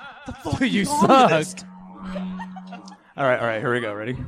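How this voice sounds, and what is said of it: Usual voice. Nothing is said of it.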